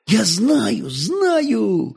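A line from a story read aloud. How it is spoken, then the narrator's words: Joyful whisper. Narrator (Russian): радостно зашептал Святослав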